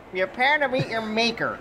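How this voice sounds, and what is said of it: Imitates another person's voice. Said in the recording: “Was that your Bob Iger impression? ... That was my Bob Iger.”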